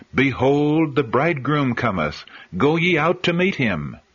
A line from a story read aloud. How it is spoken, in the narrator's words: the angels cried